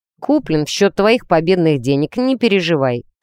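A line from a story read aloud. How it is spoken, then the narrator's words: Snort. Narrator (Russian): фыркнул он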